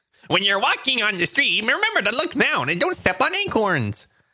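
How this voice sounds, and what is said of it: Squirrel character voice. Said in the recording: “That's my squirrel PSA. ... you can do a squirrel voice”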